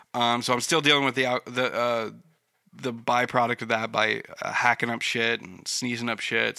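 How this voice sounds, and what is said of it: Congested, stuffy head-cold voice. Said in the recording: “I've dealt with like a head cold over the past like week ... not talking in a normal voice, that's because I'm still a bit stuffed up”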